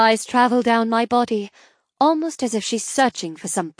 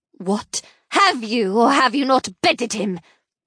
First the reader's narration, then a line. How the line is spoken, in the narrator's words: she hisses